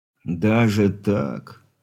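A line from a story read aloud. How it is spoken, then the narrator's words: Disappointed drawl. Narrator (Russian): разочарованно протянул капитан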